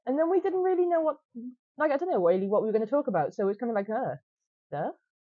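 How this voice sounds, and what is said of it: Welsh accent. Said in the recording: “as I don't know if you've noticed from the accent, we are Welsh”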